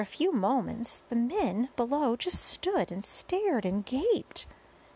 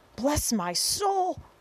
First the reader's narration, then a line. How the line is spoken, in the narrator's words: cried the head of the fire department